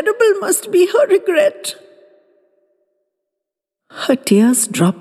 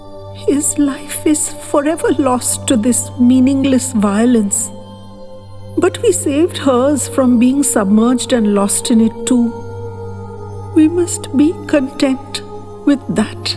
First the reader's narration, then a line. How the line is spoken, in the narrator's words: Salima was shuddering with her grief, but found the strength to somehow whisper